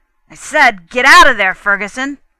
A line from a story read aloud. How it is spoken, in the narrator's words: the senior officer roared